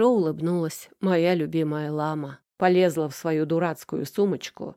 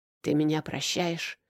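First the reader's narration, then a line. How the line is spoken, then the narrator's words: Strained hoarse wheeze. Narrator (Russian): прохрипел я, чувствуя, как воздух наконец-то проникает сквозь мои сжавшиеся связки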